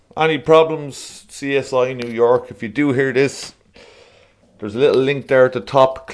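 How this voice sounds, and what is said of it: Irish accent. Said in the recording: “That's still not an Irish accent... You can hear it in my voice.”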